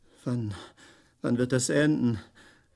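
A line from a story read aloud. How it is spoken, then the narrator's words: Wheezing voice, asking. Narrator (German): fragte mit pfeifender Stimme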